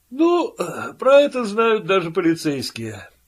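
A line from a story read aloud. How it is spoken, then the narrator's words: Lazy yawning. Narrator (Russian): лениво зевнул Пил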